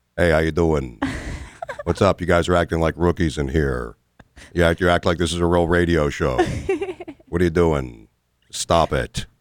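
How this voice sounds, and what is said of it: Impression of Jim Florentine. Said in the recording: “my best impression of anybody, of course, is Jim Florentine... It's like he's here.”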